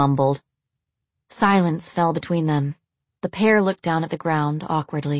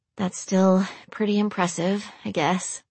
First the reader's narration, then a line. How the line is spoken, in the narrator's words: she mumbled